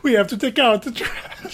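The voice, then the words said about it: Exaggerated comedic Italian accent. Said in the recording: “it's like the most comedic Italian accent ever”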